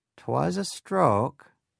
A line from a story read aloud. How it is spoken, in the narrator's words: she said in that long and drawling Yankee accent of hers